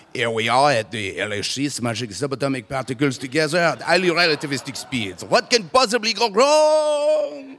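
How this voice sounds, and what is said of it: Put-on French accent. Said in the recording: “a French accent ... Can you do a French accent?”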